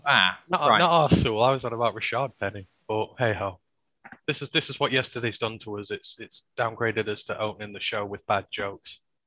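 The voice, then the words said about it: Northern English twang. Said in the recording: “your kind of northern twang.”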